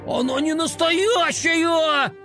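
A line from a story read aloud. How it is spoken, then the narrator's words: Indignant shout. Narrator (Russian): Возмущенно закричал он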